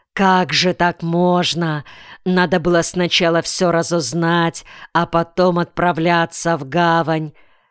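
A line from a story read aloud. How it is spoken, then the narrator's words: Grumbling. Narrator (Russian): ворчал Дедал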